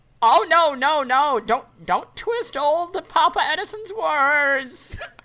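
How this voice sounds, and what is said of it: Silly put-on character voice. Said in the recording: “did a dumb goddamn voice... that was a pretty good voice”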